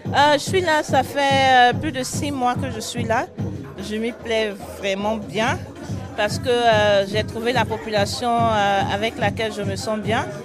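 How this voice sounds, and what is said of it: Ivorian accent in French. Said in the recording (French): “votre accent, il vient de où alors? ... Je suis ivoirienne.”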